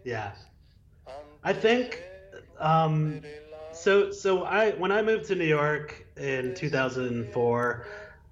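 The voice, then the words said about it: Choked-up, emotional voice. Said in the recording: “I'm a little choked up”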